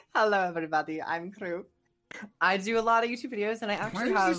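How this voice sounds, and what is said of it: Mixed German-Russian put-on accent. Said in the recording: “you suddenly just do some even weird mix between a German and a Russian accent”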